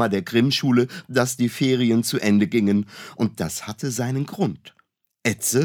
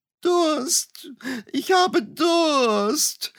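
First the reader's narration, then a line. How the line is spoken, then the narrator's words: Whining. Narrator (German): jammerte Etze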